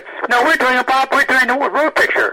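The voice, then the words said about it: Bob Hope impression. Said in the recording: “did my Bob Hope impression”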